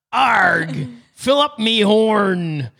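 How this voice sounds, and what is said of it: Pirate voice. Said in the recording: “Let's go with pirates.”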